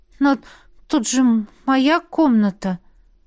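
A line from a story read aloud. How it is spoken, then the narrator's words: Almost uncertain reply. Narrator (Russian): ответила почти неуверенно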